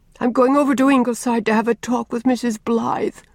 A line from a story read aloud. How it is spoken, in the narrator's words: she sobbed